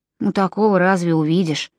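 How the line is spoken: Muttered. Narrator (Russian): пробормотал Джон

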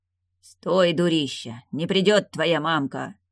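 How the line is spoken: Muffled growl. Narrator (Russian): Глухо рыкнул

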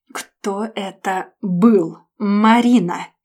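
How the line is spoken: Clipped, syllable by syllable. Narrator (Russian): Процедил по слогам

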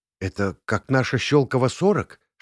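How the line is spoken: Whispered. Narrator (Russian): шепнула Наташа

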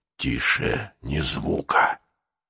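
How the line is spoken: Whispered. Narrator (Russian): прошептал Нестор

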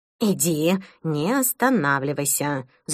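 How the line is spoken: Hissed. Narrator (Russian): зашипела Мадлен на Эда

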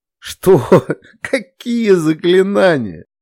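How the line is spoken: Woman laughing. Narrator (Russian): рассмеялась

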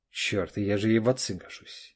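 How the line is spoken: Soft laugh. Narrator (Russian): Олег тихо рассмеялся

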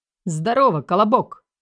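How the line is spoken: Barked joyfully into phone. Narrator (Russian): радостно гаркнул в трубку замначальника городского батальона ГИБДД Виталик Буров

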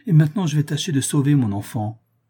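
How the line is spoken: Exclamation. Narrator (French): s'écria Gabriel

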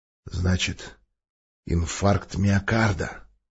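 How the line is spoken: Menacing giant's growl. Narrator (Russian): угрожающе прорычал гигант

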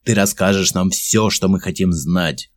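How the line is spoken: Angry. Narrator (Russian): злобно сказал он

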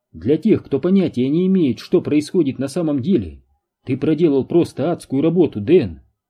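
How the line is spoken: Plain. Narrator (Russian): сказала она

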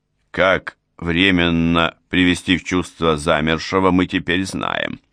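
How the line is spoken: Calm reply. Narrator (Russian): спокойно ответил я

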